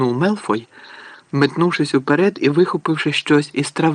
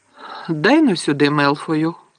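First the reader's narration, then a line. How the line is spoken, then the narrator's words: Calm. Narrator (Ukrainian): спокійно проказав Гаррі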